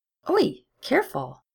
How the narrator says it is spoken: Gideon snapped, but there was a note of surprised delight in her voice

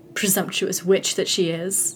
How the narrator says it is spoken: Lalwyn laughed

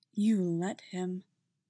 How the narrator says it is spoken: Qui-Gon had whispered

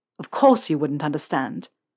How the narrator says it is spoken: Malfoy went on, his voice tinged with bitterness

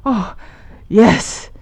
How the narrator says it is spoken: he cried

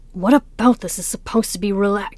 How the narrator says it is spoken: broke off gasping

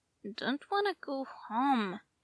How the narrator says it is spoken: Jason slurred

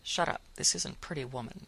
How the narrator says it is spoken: Faith muttered at him

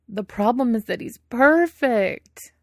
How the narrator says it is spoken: Wei Ying wails

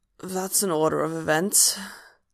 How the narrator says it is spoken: Hob croaks

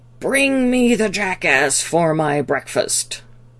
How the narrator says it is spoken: the master roared

